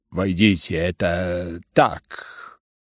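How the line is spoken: Muttering through laughter. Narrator (Russian): бормотал генерал князю, все еще невинно отсмеиваясь

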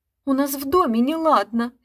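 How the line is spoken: Babbling. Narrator (Russian): лепетала я

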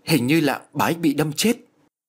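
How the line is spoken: Frightened. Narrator (Vietnamese): Ông Thiện sợ hãi nói

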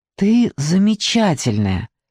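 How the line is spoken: Mumble. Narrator (Russian): пробормотал Виторио

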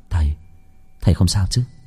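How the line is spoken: Worried. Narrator (Vietnamese): Khánh lo lắng

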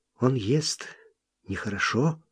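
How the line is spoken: Quiet. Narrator (Russian): Лобискви сказала негромко

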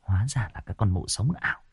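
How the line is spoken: Muttering. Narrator (Vietnamese): chị này lẩm bẩm

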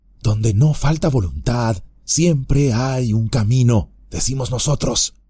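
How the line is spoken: Whispered. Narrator (Spanish): susurró

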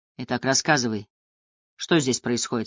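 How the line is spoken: Plain question. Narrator (Russian): спросил он

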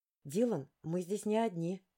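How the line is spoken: Whisper. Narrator (Russian): прошептала я

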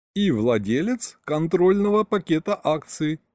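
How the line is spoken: Laughing chuckle. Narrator (Russian): хохотнул Саня

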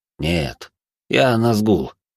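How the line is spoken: Man, said with a sigh. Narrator (Russian): произнес мужчина и вздохнул

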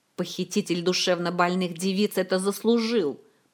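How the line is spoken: Grumbling. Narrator (Russian): проворчал мэтр Алехандро

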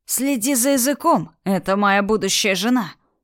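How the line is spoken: Thundering voice. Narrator (Russian): прогремел голос

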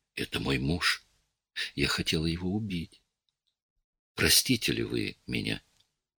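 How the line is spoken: Whispered in ear. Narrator (Russian): шепнула ему на ухо

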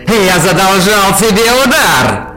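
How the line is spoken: Shouted almost cheerfully. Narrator (Russian): Чуть ли не с весельем в голосе прокричал командующий скорбной гвардией

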